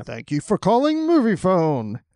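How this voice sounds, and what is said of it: Moviefone announcer voice impression. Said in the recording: “lapsing into the movie phone voice”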